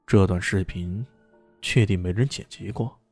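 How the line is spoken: Deep, grave voice. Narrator (Chinese): 李炫沉声的说道

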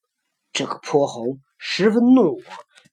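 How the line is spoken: Angry elder. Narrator (Chinese): 长老又怀怒道

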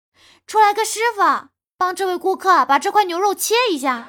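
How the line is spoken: Calling out. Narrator (Chinese): 那个服务员就冲着厨房喊道

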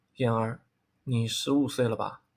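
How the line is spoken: Sudden, after sigh. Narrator (Chinese): 萧战叹了一口气，沉默了片刻，忽然道

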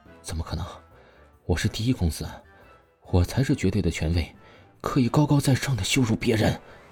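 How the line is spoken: Murmuring. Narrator (Chinese): 他只是嘴中不禁的喃喃道

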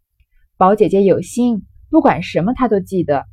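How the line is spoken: Laughing. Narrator (Chinese): 探春笑道

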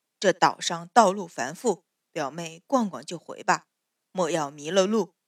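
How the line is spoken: Low, restrained voice. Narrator (Chinese): 终究忍住，低声道

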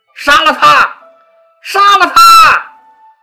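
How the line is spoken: Shouting in unison. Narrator (Chinese): 刘邦的手下齐声大喊

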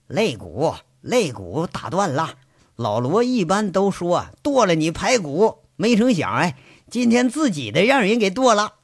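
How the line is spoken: Laughing. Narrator (Chinese): 轮子笑着就跟金刚说了

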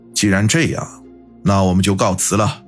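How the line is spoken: Deep, grave voice. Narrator (Chinese): 沉声说道

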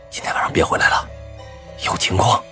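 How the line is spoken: Low voice. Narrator (Chinese): 低声说道

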